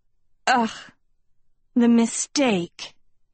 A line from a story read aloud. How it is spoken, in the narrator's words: Beatrix groaned